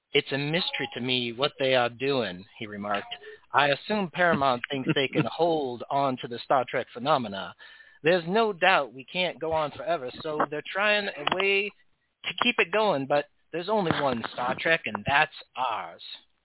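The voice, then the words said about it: Impression of Bones McCoy. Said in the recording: “that's a wonderful wonderful impersonation, my friend. I feel like Bones is right here in front of us.”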